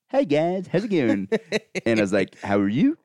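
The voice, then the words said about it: Goofy, dim-witted character voice. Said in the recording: “did a voice ... That's like a very pleasant, retarded voice ... like an Adam Sandler character”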